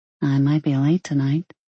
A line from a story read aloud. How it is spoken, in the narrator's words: she said quietly